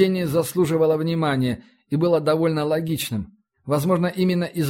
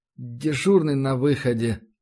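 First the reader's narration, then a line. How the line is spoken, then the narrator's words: Hesitant objection. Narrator (Russian): неуверенно постарался возразить Самойлов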